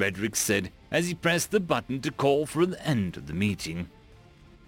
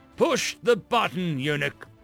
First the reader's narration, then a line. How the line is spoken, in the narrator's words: Frederick said in a harsh tone